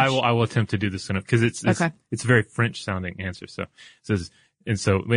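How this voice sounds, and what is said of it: Usual voice. Nothing is said of it.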